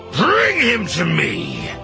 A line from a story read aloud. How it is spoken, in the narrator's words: Lozen barks to Odair